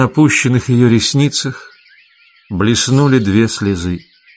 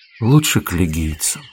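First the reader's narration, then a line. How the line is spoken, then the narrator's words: Barely audible. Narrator (Russian): девушка ответила уже так тихо, что Акта с трудом расслышала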